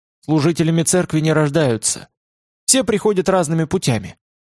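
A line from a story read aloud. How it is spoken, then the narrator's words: Meek sighing. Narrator (Russian): Вздохнул и сказал Олегу кротко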